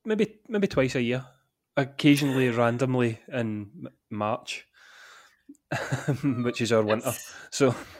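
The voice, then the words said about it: Scottish Glasgow accent. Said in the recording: “As you can tell from the accent, I'm in Glasgow”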